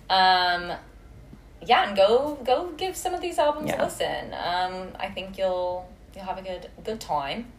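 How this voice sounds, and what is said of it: Terrible put-on British accent. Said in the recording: “My terrible British accent.”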